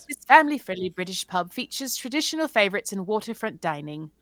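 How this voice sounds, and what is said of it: Put-on British accent. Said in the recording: “I'll read it in an accent.”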